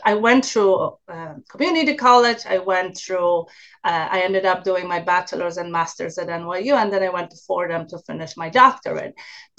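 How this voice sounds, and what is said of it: Polish accent. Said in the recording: “I originally uh, came from Poland so that's that's my accent”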